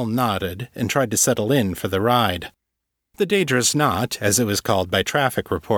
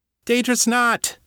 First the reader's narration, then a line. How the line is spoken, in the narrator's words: Callie yelled back